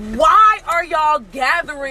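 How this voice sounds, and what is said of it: Yelling angrily. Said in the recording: “Why are you yelling? ... because I'm heated”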